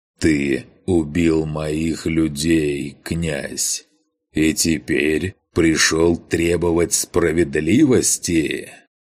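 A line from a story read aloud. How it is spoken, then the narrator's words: Slow, measured words. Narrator (Russian): Грон медленно, разделяя слова, произнес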